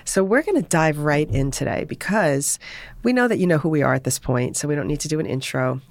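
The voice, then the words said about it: Hoarse voice. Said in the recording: “My voice is a little hoarse today”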